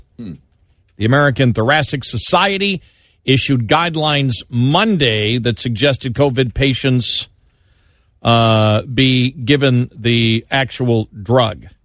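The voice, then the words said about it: Talking very slowly. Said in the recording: “as I'm talking very slowly,”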